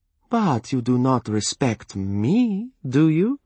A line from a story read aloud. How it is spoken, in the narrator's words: the little minx taunted him